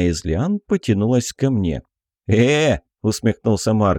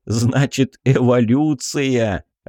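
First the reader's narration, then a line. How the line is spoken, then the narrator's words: Laughing out loud. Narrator (Russian): Расхохотался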